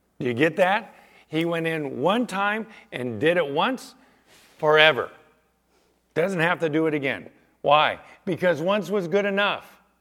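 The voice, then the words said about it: Excited, raised loud voice. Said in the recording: “why am I getting a little excited on that? ... Why am I raising my voice a little bit?”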